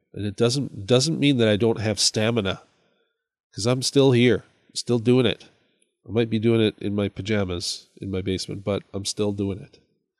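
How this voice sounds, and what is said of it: Congested voice with a cold, sniffing. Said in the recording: “I have a cold. So if you hear me sniffing”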